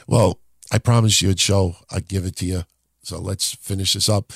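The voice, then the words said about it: Rough, hoarse voice. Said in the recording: “does my voice sound horrible”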